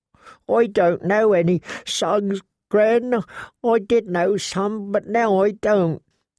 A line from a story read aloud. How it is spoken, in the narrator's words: He sobbed again and said